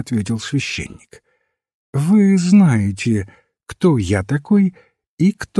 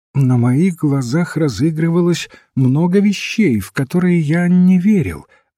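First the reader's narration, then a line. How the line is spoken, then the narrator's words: Plain. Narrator (Russian): ответил священник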